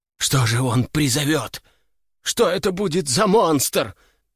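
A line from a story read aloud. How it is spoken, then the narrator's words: Trembling voice. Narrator (Russian): Дрожащим голосом проговорил кто-то из собравшихся у окон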